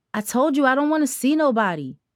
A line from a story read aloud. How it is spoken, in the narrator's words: Tara yelled in the distance